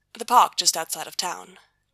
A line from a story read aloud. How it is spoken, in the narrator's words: Gabriel says